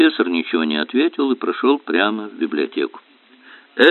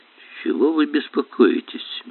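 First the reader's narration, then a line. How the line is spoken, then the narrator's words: Soft question. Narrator (Russian): мягко спросил он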